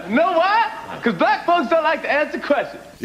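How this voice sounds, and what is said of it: Chris Rock impression. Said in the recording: “Jimmy Fallon as Chris Rock, hilarious. It's a great impression.”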